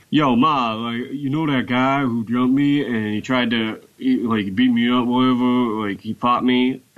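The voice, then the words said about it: Imitates another person's voice. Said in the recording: “I'm trying to sound as best I can like my brother Tommy ... accent ... He sounds like he's always drinking a smoothie.”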